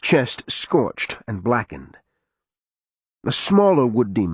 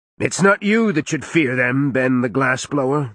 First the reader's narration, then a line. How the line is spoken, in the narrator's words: the warded man called, his voice like a hurricane